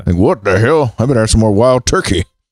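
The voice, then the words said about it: Imitates another person's voice. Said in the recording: “That's how I assume his voice is.”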